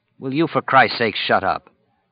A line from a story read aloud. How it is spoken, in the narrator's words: Kojak continued to growl, his hackles up